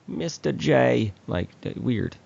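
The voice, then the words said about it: Harley Quinn impression. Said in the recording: “She sounded like Harley Quinn sometimes. ... you were channeling your inner Harley right there.”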